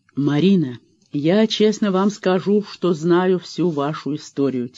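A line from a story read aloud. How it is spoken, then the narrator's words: Quiet. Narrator (Russian): тихо начал Вадим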